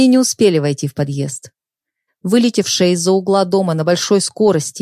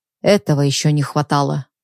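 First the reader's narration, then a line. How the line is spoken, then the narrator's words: Grumble. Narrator (Russian): пробурчал Михаил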